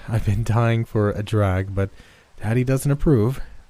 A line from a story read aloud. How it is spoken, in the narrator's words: she said, with a giggle